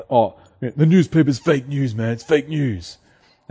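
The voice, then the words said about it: Terrible impersonation of someone. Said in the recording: “terrible impersonation ... a great impersonation of the person I was just trying to impersonate”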